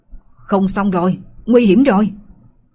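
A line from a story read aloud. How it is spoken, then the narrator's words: Urgent loud shout. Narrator (Vietnamese): Lạc Ly lập tức quát to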